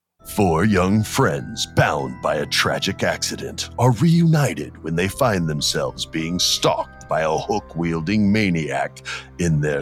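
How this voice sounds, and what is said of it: Movie trailer announcer voice. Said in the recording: “let me do my trailer guy voice.”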